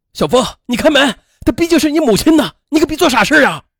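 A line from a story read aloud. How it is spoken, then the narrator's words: Shouting through door. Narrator (Chinese): 继父在门外喊着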